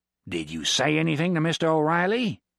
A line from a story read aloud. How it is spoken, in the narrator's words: he growled at Valdir